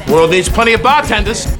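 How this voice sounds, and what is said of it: Unconvincing put-on Boston accent. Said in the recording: “he can't do a Boston accent to save his life”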